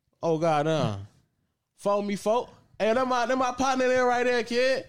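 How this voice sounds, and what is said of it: Put-on East Atlanta accent. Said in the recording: “mine's a generic East Atlanta accent”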